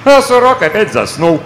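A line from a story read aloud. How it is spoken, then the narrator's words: Exclaiming. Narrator (Russian): воскликнул шляпочник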